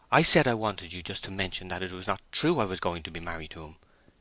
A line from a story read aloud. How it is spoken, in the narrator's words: she murmured, with a slight decline in her assurance